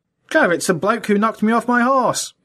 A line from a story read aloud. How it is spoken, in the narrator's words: exclaimed Otterbridge